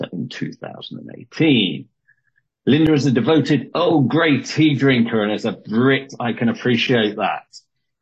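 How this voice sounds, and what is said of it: British accent. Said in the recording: “your accent makes everything sound even more professional ... my radio British accent”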